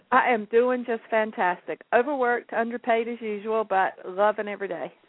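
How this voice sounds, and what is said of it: Southern American accent. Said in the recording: “what a terrific southern accent you had.”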